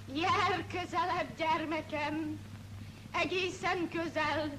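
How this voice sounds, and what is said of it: Slow, trembling old woman's voice. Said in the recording (Hungarian): “maga most egy 80 éves örgasszony, a horvát nagymamája. Hát beszéljen szép lassan, reszkető hangon.”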